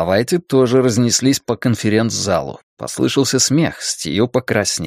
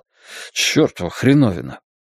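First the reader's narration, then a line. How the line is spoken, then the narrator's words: Mutter. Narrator (Russian): Стью пробормотал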